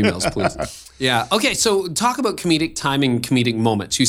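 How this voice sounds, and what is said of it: Usual voice. Nothing is said of it.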